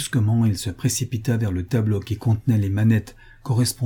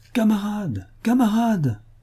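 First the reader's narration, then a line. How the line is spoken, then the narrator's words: Commanding officer yelling. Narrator (French): un officier qui les commandait hurla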